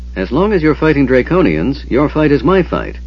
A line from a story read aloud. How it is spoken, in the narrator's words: Eben said cheerfully